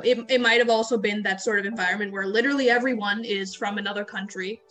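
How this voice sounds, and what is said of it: American English accent. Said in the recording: “People knew from my accent that I wasn't born in India. ... this is an American accent.”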